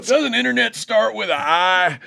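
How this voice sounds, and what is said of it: Imitation, sounds like drinking moonshine. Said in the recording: “That's pretty good. That's a good imitation. That sounds like a guy's drinking moonshine.”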